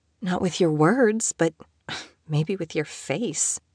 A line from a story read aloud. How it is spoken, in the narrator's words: she muttered